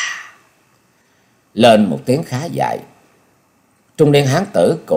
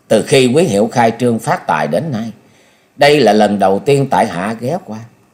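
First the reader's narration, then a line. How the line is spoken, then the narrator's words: Smiling. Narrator (Vietnamese): Nhậm Sơn Bạch mỉm cười nói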